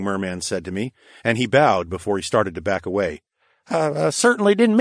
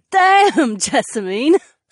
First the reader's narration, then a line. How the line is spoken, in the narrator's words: Sienna laughed